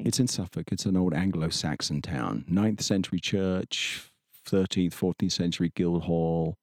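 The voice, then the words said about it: English accent. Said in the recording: “you grew up in England, obviously. ... We can hear that from your accent.”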